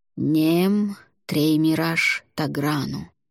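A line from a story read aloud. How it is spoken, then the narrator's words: Slow, slightly singsong. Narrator (Russian): Вран медленно и немного напевно произнес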